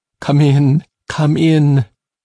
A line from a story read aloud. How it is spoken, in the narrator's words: he sobbed